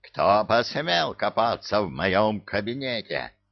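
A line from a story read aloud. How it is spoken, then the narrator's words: Furious growl. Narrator (Russian): В бешенстве зарычал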